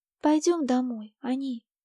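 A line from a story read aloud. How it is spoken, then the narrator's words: Timid repetition. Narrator (Russian): робко повторила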